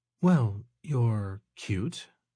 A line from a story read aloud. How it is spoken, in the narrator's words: Nikki muttered